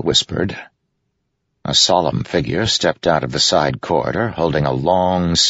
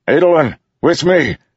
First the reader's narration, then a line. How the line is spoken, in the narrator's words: Delinar shouted